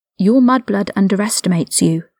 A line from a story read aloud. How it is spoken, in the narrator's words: Lucius Malfoy whispered in the back of his mind